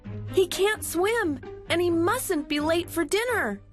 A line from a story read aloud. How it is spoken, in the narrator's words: cried Millie and Molly